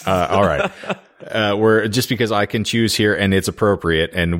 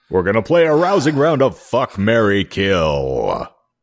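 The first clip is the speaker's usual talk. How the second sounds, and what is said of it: Announcer voice. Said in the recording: “announcer voice”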